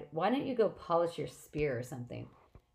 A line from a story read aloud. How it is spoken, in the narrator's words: Annabeth sighed